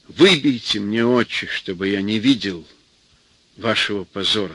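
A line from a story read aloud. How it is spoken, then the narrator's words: Plain. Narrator (Russian): сказал он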